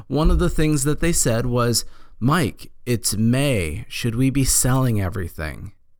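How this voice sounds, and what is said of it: Hoarse, strained voice. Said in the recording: “I'm losing my voice again.”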